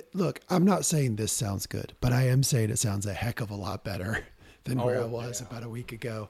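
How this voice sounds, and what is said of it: Hoarse, raspy, strained voice. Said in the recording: “hoarse, raspy, recovering host ... I have lost my voice now. This is like day 10 of struggling with voice issues.”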